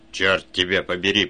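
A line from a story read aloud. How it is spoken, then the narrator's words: Muttered through teeth. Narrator (Russian): процедил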